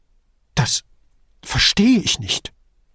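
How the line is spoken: Stammering. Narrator (German): stammelte Duso

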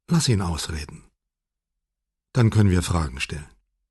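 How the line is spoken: Husband, said gently. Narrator (German): sagte ihr Mann sanft

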